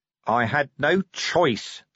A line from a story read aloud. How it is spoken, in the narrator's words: said Vimes hotly